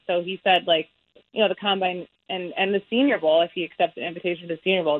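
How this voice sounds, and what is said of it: Mild Wisconsin Midwestern accent. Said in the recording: “You've got a Big Ten accent. I'm getting Wisconsin or Northwestern. ... you're losing your Wisconsin, but not all the way.”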